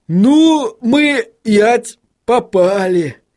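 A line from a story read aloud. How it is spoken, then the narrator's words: Groaning. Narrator (Russian): простонал господин Тюльпан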